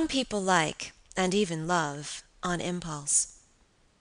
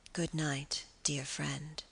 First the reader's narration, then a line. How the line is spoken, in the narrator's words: she murmured again